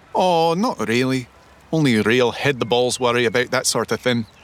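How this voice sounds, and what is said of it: Scottish accent. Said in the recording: “You have an unusual accent. ... I'm Scottish.”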